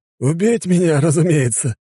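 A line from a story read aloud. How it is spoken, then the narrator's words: Laughing. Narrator (Russian): рассмеялся Левша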